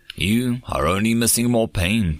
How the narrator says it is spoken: Threedak thrummed, her throat pouches sadly

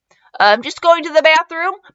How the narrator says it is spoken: Mikey cried, quickly thinking of an excuse

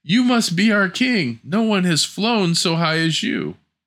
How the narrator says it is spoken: The birds cried

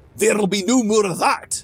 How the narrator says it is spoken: Grog shouted

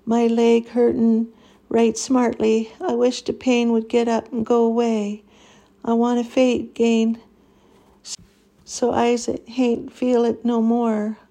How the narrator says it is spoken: Anaiah sobbed and shivered uncontrollably

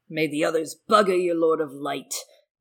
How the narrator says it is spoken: Penrose spat back

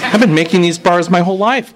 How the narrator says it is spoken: Pat said, almost pleading

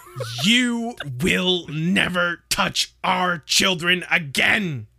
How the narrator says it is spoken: screamed Mrs

